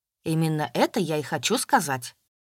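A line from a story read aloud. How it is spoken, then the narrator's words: Stern answer. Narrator (Russian): строго ответил Максим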